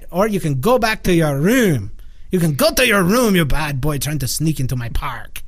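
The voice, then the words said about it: Mixed put-on accent with pirate tones. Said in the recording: “There's a pirate accent mixed in there now. ... I have every accent.”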